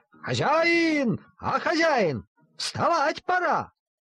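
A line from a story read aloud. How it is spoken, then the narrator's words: Machine shouting. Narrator (Russian): машинка ... кричала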